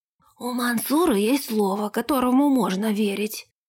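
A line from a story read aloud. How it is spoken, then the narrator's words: Wheezing robber. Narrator (Russian): просипел разбойник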